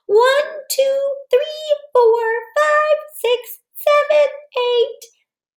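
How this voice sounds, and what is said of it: Counting in a high voice. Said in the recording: “Let's count to eight one more time in our high voice.”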